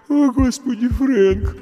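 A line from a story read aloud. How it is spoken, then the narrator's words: Sleepy mumble. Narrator (Russian): сонно пробормотала Марш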